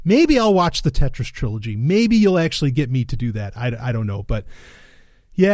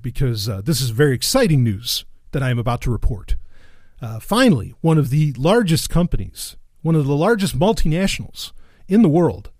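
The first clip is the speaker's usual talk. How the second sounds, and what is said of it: Mock-serious newsreader delivery. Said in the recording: “put on my very serious voice”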